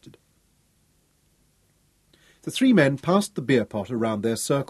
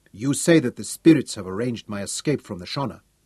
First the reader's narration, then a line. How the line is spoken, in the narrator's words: Tungata replied